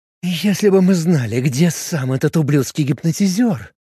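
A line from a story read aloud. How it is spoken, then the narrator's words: Through gritted teeth. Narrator (Russian): сквозь зубы процедила Линда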